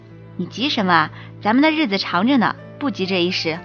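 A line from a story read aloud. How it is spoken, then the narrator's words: Gentle, coaxing. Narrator (Chinese): 胖子先生语气温柔的像是哄小孩子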